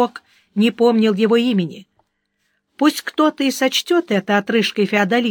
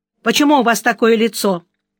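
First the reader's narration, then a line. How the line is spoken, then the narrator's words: Sharp question. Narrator (Russian): резко спросил Сварог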